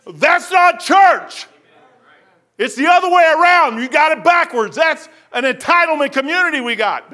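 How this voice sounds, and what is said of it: Yelling preacher. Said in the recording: “y'all say I'm yelling. I'm yelling”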